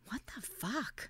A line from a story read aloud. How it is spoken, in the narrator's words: whispered